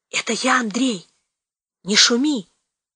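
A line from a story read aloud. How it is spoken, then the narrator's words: Hoarse wheezing voice. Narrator (Russian): засипел в темноте знакомый голос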